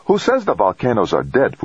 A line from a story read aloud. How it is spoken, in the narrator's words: Fujita snapped